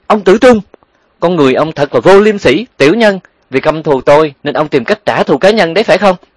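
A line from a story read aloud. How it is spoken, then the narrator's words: Shouting loudly. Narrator (Vietnamese): hét lớn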